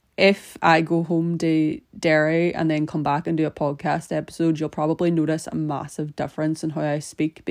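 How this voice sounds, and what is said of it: Irish accent with slight Scottish influence. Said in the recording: “my accent has definitely gotten a wee bit more Scottish, apparently. Scottish and Irish is quite similar anyway ... I just go full on Irish”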